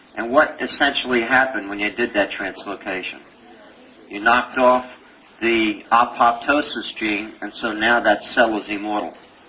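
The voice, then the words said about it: Brooklyn accent. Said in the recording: “That Brooklyn accent always comes in there, immortal.”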